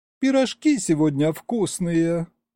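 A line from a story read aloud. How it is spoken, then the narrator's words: Drawled with a sigh. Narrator (Russian): протянула Маша и вздохнула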